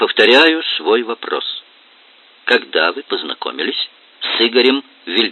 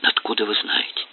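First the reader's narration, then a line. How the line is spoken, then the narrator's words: Near whisper. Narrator (Russian): почти прошептала Лера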